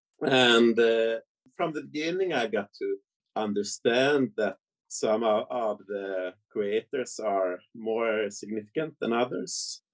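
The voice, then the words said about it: Swedish accent. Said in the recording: “my Swedish accent ... your Swedish accent”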